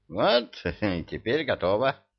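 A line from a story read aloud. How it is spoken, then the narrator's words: Satisfied sigh. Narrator (Russian): Удовлетворенно вздохнул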